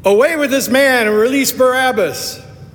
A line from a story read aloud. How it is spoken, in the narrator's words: they cried out together